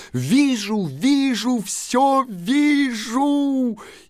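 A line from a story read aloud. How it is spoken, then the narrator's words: Sudden shout. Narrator (Russian): Вдруг она закричала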